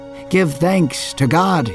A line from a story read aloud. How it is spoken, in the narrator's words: he shouted